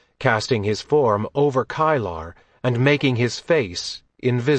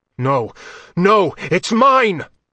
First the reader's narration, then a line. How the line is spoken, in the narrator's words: Blint yelled